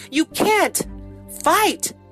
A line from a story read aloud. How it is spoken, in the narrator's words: cried Henny